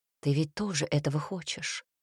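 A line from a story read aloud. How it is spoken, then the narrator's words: Whisper. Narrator (Russian): прошептал он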